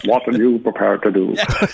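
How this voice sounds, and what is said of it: Sean Connery impression, Scottish accent. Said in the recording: “In the words of Sean Connery in The Untouchables ... Can you do it with the accent?”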